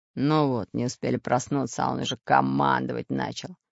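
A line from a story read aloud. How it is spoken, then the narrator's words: Displeased grumbling mutter. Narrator (Russian): Недовольно пробурчал Буль-Буль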